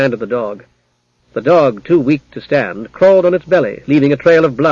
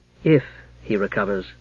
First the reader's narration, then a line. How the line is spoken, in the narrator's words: murmured a softer female voice